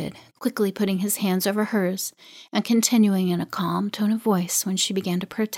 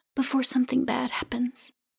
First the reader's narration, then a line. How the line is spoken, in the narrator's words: whispered